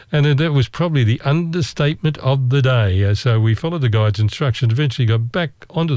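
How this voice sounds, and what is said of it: Usual voice. Nothing is said of it.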